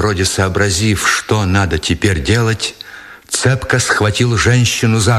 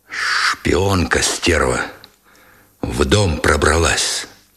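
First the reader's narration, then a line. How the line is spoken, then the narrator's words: Hoarse wheeze. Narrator (Russian): просипел Меженин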